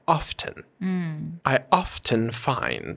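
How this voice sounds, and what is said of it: Mid-Atlantic accent, strong T. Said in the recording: “in the mid Atlantic transatlantic accent, that T is very strong”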